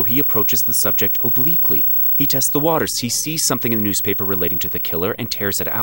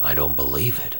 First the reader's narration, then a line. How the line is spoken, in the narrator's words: Franklin mumbled